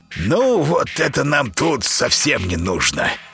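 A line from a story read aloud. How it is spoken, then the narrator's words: Creaky old man's voice. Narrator (Russian): проскрипел дед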